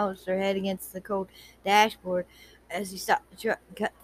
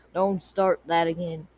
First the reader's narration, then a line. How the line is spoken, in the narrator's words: Cad grumbled